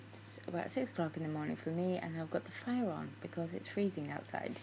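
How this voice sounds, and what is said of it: English accent. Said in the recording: “I'd like to say British, but English accent”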